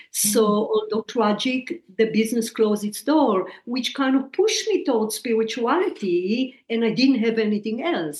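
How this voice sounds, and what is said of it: Heavy foreign accent. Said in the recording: “If you think my accent is heavy now”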